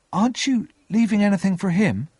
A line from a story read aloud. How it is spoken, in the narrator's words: I asked anxiously